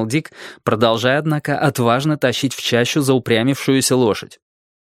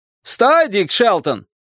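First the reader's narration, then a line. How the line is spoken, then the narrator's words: Shouting. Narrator (Russian): крикнул человек на острове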